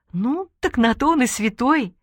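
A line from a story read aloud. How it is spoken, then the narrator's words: Laughing while speaking. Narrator (Russian): Джанбал смеялась и говорила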